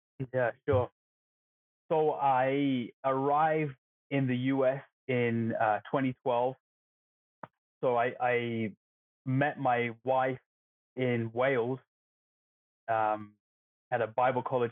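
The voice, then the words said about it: Non-American foreign accent. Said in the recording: “clearly from your accent, you're not from these parts”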